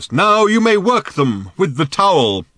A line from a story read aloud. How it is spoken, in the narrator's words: exclaimed Old Thrashbarg at last